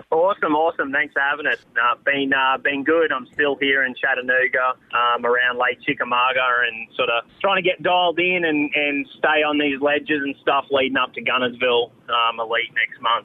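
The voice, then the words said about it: Australian accent. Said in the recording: “he, of course, is from Australia ... We all dig that Australian accent.”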